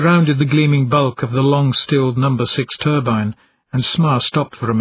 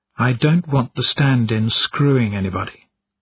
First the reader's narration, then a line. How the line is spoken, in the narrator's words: said quietly